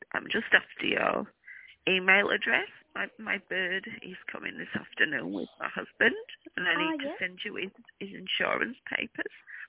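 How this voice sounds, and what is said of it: Hoarse, sore-throat voice. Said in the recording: “I've got a sore throat.”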